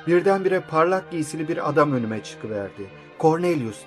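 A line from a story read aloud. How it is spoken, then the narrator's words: Plain. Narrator (Turkish): dedi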